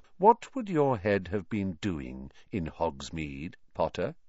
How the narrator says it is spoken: said Snape softly

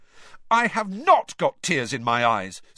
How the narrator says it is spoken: said Harry loudly

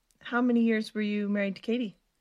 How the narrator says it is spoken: Stephanie asked in a softer tone than before

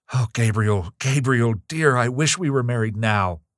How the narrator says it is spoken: Evelyn cried in sudden distress

